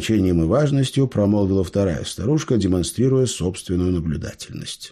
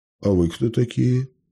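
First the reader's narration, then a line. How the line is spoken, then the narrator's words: Uncertain question. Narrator (Russian): неуверенно спросил Митя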